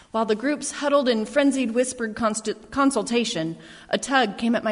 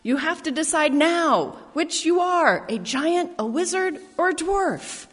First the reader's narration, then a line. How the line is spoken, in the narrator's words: I yelled out